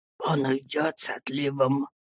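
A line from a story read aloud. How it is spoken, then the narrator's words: Secretive whisper behind hand. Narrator (Russian): прошептал мне мистер Пиготи, заслоняя рот рукой, чтобы сестра не могла услышать его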